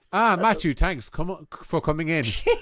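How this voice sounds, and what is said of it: Clipped English accent. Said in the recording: “I'll do this in my best clipped English accent.”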